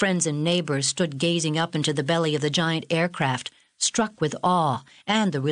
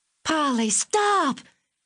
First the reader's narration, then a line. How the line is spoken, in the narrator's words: screamed Margaret